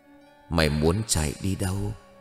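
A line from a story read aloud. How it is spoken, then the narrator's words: Soft whisper. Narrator (Vietnamese): Cô khẽ thì thầm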